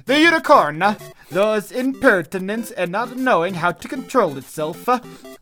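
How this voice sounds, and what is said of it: Put-on Italian accent, drifting Swedish. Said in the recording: “Is that a good Italian accent? I can't tell... in what I now think might have been a Swedish accent”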